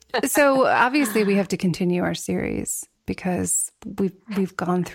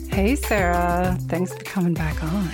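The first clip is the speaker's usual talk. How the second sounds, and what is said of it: Low, soft bedroom voice. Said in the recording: “It's my bedroom voice greeting.”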